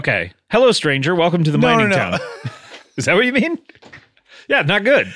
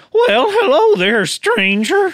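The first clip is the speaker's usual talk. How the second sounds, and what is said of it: Cowboy voice, slipping into falsetto. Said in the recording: “slipped in between falsetto and my chest voice ... that fits for a cowboy voice ... Like take away the cowboy affect.”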